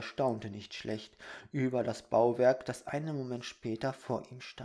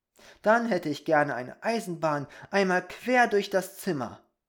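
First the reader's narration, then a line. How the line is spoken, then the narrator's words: Shouted. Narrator (German): rief Peter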